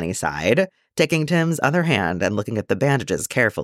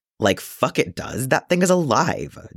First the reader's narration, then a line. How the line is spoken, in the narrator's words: Jason snapped